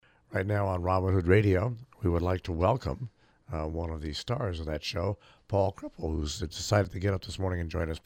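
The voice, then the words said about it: Unusually deep, gravelly voice. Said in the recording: “I think your voice sounds good ... it's a deep voice. Normally, my voice isn't this deep and gravelly”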